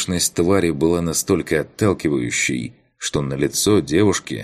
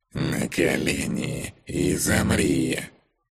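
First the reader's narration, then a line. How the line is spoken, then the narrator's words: Hissing spider. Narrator (Russian): прошипела паучиха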